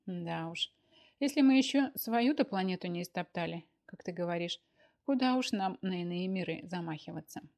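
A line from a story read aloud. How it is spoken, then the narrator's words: Sighing. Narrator (Russian): вздохнула она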